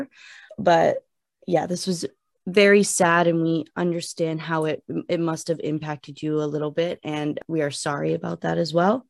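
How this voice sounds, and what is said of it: Choked-up, emotional voice. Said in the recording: “I'm actually getting choked up a little bit”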